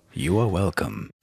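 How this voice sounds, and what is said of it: Deep announcer voice. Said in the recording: “doing the weird voices now... Deep announcer voice.”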